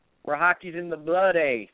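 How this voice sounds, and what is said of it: Bad put-on Canadian accent. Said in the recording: “That was a pretty bad Canadian accent”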